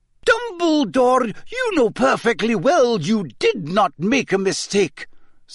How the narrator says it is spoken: said Professor McGonagall angrily

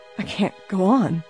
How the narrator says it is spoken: whispered weakly

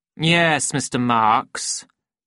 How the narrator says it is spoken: said the Director coldly

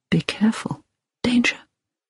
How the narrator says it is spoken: Hilary heard him whisper

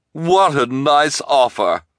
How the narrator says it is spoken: the reporter cried

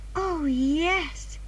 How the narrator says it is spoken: said Anne happily

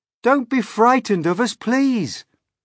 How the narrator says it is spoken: James called out

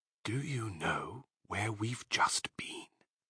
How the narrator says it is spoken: Fox pushed his face close to Badger's and whispered darkly

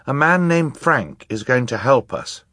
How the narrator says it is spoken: Violet said

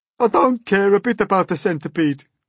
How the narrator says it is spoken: the earthworm sobbed

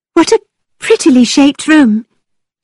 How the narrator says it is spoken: she cried

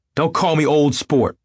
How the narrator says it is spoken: cried Tom

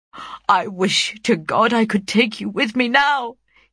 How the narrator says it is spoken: he exclaimed

